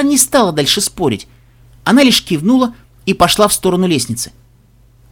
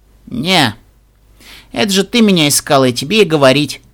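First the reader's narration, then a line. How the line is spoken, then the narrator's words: Indifferent tone. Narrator (Russian): безразличным тоном ответила Тиара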